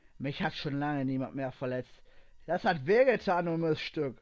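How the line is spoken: Angry cursing. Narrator (German): fluchte wütend auf

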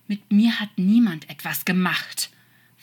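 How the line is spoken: Hissing. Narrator (German): fauchte der Engel

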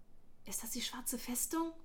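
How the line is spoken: Whispered. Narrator (German): flüsterte Darren

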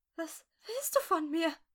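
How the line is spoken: Whimpering. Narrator (German): wimmerte sie

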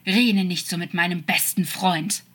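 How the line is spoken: Hissing, angry. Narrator (German): fauchte er

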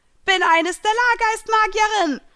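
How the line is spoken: Shouted out. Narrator (German): schrie sie hinaus ... lachte erneut

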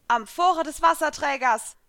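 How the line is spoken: Loud call. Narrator (German): rief ich laut

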